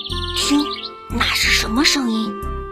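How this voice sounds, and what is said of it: Quiet whispered voice. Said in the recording (Chinese): “小声地说”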